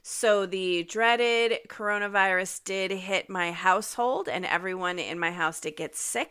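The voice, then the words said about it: Slightly nasal, congested voice. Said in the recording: “my voice sounds a little different... I still have some lingering effects from being sick with COVID... It has impacted my voice, and I'm a little nasally.”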